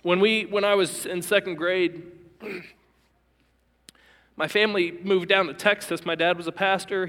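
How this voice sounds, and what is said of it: Emotional, choked-up voice. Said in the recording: “I'm already emotional. I thought I would get emotional at this point. I'm already emotional.”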